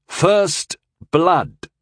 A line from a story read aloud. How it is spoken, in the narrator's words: I said firmly